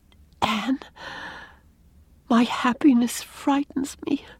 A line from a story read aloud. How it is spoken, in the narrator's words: whispered Leslie